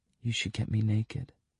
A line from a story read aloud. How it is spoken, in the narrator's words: she whispers